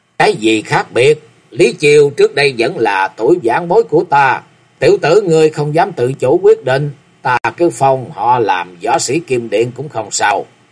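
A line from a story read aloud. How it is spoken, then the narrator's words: Old woman laughing loudly. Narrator (Vietnamese): Quỷ bà cười lớn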